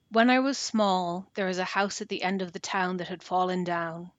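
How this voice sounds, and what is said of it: Dramatic storytelling reading voice. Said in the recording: “put on my reading voice”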